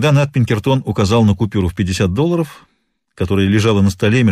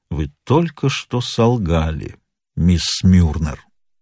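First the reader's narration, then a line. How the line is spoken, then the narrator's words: Slow, stressing each word. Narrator (Russian): проговорил медленно, с ударением на каждом слове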